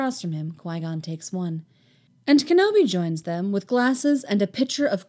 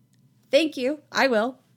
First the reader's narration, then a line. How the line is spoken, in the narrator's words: Anakin says eagerly